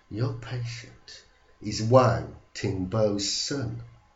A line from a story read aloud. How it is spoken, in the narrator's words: said quietly